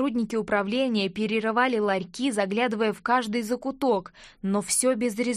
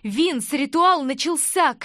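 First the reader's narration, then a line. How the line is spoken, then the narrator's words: Shout. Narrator (Russian): крикнула я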